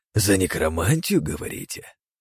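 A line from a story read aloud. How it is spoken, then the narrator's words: Hoarse voice from bushes. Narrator (Russian): сиплый голос из кустов за нашей спиной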